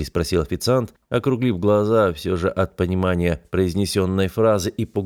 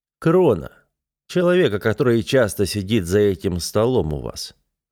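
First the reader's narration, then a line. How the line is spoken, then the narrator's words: Calm repetition. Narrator (Russian): спокойно повторил я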